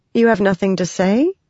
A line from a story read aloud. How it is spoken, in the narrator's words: Shallan said